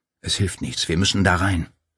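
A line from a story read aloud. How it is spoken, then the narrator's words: Whispered. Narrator (German): flüsterte Paul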